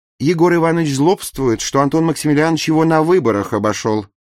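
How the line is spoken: Cheerful explanation. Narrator (Russian): весело объяснила Варвара Ильинична

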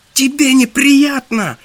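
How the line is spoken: Squealing egg. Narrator (Russian): взвизгнуло яйцо Ганзера

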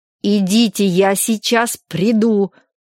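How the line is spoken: Angry repetition. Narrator (Russian): сердито повторил он

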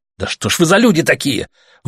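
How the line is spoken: Furious shout. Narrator (Russian): выкрикнул Артем бешено

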